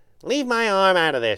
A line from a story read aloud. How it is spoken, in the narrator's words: said testily